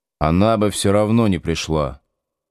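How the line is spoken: Plain. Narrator (Russian): почему-то сказал Витька

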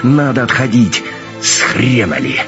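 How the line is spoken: Barked from behind. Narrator (Russian): рявкнул где-то за спиной Кошкин

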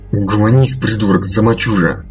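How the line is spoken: Half-hearted hiss. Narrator (Russian): Больше для очистки совести, чем надеясь достучаться до сбрендившего товарища, прошипел Айвен

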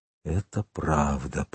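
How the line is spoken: Whispered. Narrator (Russian): прошептал англичанин

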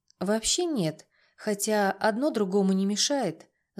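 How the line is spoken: Thoughtful. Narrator (Russian): задумчиво сказала я

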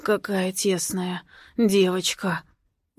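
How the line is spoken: Satisfied hoarse rasp in ear. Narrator (Russian): удовлетворенно хрипит мне в ушко

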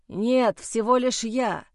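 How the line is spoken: Hoarse reply. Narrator (Russian): в ответ прохрипел Майло

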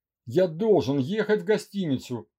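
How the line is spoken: Sharp rebuke. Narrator (Russian): прикрикнул на нее Андрей

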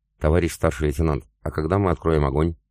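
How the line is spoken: Calm question, slightly trembling voice. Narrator (Russian): спокойно спросил Иван, хотя я заметил, что его голос подрагивал

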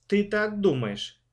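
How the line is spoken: Plain. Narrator (Russian): спросила мама

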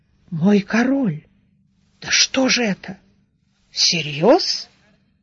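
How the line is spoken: Confused old mutter. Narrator (Russian): седоусый Глэрт растерянно пробормотав

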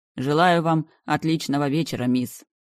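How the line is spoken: Loud. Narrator (Russian): громко сказал он

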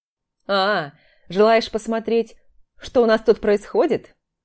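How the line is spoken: Laughing. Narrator (Russian): Давид засмеялся

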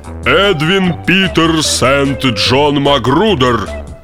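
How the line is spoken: Solemnly spoken. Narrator (Russian): торжественно заговорил он

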